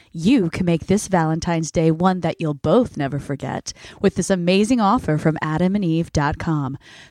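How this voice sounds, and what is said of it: Sultry, seductive voice. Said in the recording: “I've got my sexy voice on”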